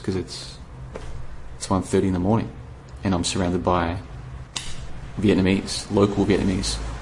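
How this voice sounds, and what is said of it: Quiet, low-volume speech. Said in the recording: “I'm trying not to be too loud. You can tell from my voice, like, I'm not putting any volume in my voice”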